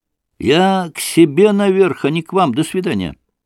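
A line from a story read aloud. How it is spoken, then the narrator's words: Sudden shout. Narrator (Russian): он вдруг закричал ему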